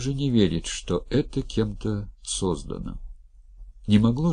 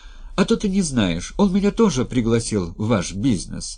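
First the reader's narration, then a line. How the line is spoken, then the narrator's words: Cheerful. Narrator (Russian): радостно сообщила Кира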